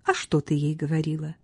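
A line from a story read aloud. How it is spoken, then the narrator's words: Cheerful curious question. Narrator (Russian): весело полюбопытствовала Катриона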